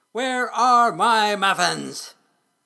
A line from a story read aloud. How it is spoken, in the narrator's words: shouted